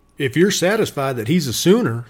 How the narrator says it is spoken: said Miller

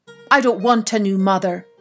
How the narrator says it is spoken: cried

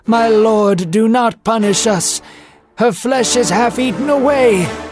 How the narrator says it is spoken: Aaron cried with his face to the floor

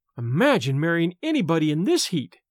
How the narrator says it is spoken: cried Jordan dismally

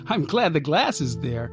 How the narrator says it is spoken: I said, giggling

